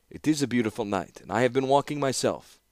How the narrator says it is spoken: he said

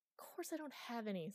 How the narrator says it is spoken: snapped Chloe

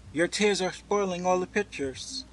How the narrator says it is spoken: she cried

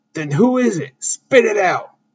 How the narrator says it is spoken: Finn angrily asks

